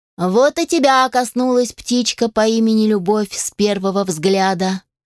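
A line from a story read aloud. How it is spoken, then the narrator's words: Laughing. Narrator (Russian): Мэтт рассмеялся и сказал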